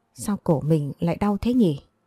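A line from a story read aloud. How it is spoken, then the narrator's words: Wincing in pain. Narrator (Vietnamese): tôi khẽ nhăn mặt nói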